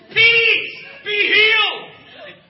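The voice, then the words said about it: Screaming loudly. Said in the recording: “I'm screaming.”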